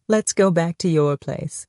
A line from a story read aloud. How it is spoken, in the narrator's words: he laughed quietly